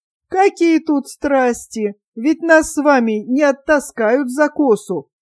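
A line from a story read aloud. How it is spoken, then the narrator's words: Laughing objection. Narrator (Russian): возразила, смеясь, Матрена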